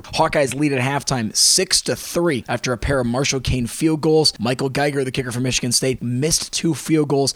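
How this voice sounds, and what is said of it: Gravelly, congested voice. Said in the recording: “My voice is a little gravelly this week ... A little bit of a sinus thing going on”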